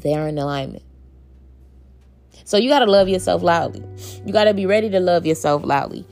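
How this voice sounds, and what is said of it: Dry, tiring voice. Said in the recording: “My voice getting dry right now”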